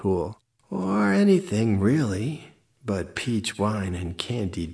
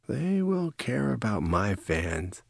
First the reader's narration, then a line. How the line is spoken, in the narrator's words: muttered Jaya